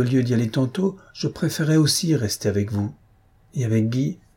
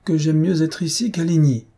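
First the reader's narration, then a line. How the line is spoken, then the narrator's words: Exclaiming with conviction. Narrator (French): s'écria Antoinette avec conviction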